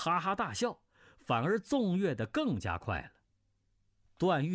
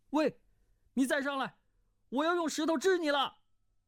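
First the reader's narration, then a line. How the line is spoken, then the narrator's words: Frightened cry. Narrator (Chinese): 段誉心下骇然，叫道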